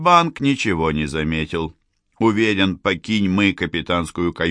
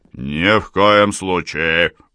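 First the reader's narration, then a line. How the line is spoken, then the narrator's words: Sullen grumble. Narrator (Russian): угрюмо проворчал капитан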